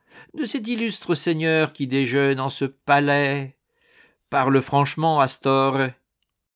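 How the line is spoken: Mocking. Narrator (French): dit-il d'un ton goguenard

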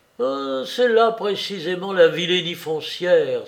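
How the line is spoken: Exclaimed. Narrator (French): s'écria-t-il

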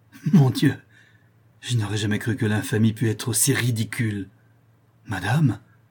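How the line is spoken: Enraged exclamation. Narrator (French): s'écria Florestan, les traits contractés par la rage

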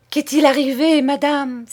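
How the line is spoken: Hypocritical cry, suppressed smile. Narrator (French): s'écria hypocritement Betty, qui avait peine à dissimuler un sourire

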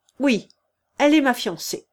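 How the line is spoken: Firm declaration. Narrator (French): déclara d'un ton ferme le visiteur

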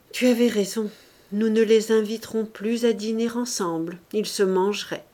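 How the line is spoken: Said with heavy sigh. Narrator (French): Il dit avec un gros soupir

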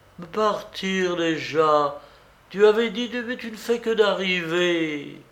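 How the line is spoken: Cries and pleading. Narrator (French): Et des cris, des supplications

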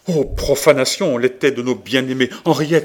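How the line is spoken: Exclaiming. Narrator (French): s'écria Marguerite

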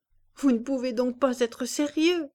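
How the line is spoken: Laughing woman. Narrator (French): répondait Madame de Berle en riant

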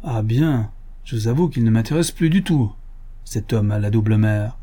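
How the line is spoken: Comical, amusingly sincere. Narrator (French): Et ce fut dit d'un ton si cocasse, avec une sincérité si amusante

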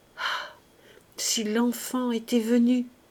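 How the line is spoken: Very low sobbing stammer. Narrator (French): Plus bas encore, en un sanglot, elle crut l'entendre bégayer des mots indistincts

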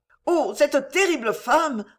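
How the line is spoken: Exclaimed. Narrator (French): s'écria Monique

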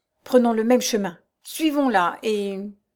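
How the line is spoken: Broken, halting voice. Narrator (French): dit Raoul d'une voix entrecoupée

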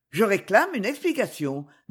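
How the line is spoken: Determined tone. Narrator (French): dit-il d'un ton déterminé

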